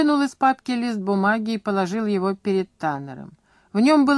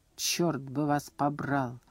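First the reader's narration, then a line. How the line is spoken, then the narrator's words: Quiet. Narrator (Russian): тихо сказал он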